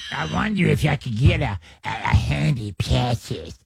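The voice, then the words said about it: Gollum-like character voice. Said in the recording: “That's that Lord of the Rings. ... That's Larry Gollum. ... Gollum.”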